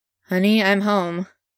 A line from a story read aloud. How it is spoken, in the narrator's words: Grantaire says, as dryly as he can